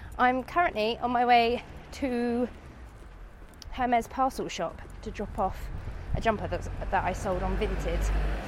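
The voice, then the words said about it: Sick, congested-sounding voice. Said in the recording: “as you can hear from my voice, I'm getting over a nasty cold”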